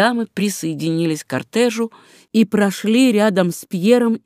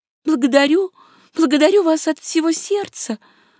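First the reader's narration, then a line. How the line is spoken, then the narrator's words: Delighted babble. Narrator (Russian): лепетала восхищенная Мари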